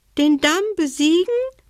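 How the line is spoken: Frightened dormouse squeak. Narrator (German): piepste die Haselmaus, stumm vor Schreck

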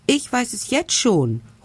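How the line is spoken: Triumphant call. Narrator (German): ruft Hektor triumphierend

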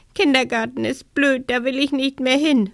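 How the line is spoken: Sobbing. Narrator (German): schluchzt Luisa

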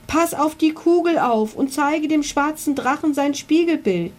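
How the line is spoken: Calling out. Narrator (German): rief er

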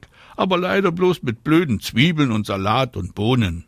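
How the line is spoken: Calling back. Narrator (German): ruft Anna zurück

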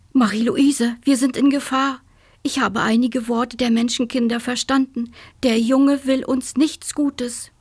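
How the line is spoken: Called out. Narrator (German): rief er

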